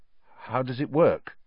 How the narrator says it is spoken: said Harry, nervously

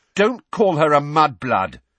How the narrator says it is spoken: said Ron and Ginny together, very angrily

